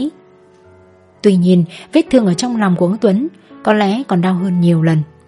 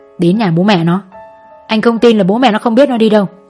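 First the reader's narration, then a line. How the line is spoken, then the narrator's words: Hissed through teeth. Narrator (Vietnamese): Chú Đại rít qua kẽ răng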